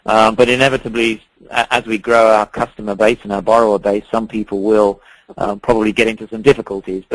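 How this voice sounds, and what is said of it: British English accent. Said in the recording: “As you can probably detect from my accent, I'm not from here originally. I am from the U.K.”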